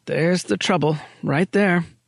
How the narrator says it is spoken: muttered

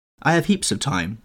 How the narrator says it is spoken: he answered

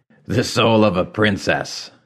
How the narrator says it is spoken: the war chief barked a laugh

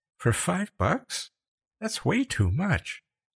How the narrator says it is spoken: Becca said in a faint voice

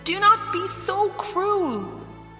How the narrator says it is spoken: Fionnuala pleaded with her stepmother

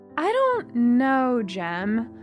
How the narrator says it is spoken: I said slowly

